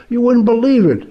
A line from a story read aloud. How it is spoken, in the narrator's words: he exclaimed